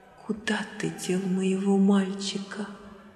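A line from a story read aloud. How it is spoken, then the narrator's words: Shaken whisper. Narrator (Russian): Она вздрогнула всем телом и прошептала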